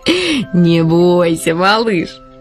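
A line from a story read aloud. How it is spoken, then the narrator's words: Laughing, crow. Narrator (Russian): засмеялась ворона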